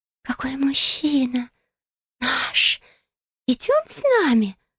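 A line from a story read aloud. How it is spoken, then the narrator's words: Whispering from behind. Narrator (Russian): шептали нимфы за моей спиной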